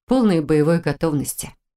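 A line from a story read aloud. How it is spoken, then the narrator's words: Assurance, trying to sound calm. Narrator (Russian): заверила, стараясь выглядеть так же спокойно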